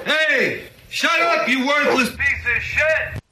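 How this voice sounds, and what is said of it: Angry yelling. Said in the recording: “Stop yelling”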